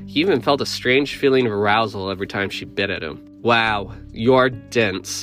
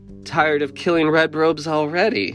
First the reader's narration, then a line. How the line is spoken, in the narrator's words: Abigail giggled in a way that creeped Balaam out, but also drew him in